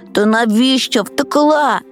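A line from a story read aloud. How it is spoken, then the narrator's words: Grumble. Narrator (Ukrainian): буркнув Лесик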